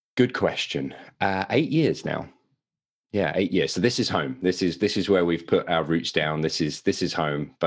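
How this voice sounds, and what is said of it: English accent. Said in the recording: “Don't be fooled by the accent. I am a Brit ... my English accent”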